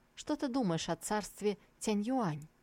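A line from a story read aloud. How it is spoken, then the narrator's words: Thoughtful answer. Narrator (Russian): Гун Еджиу тоже был погружен в собственные мысли и ответил Сусу задумчиво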